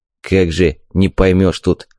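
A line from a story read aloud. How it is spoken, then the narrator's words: Grumbling. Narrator (Russian): проворчал Скиртес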